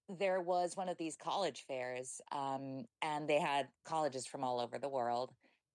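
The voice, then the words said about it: Fake-sounding American accent. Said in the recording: “this really fake American accent, which has no relation to me”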